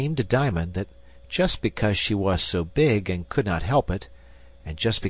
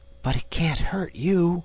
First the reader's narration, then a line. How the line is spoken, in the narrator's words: murmured Diamond